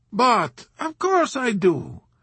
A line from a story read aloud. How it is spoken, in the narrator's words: exclaimed the old man cheerfully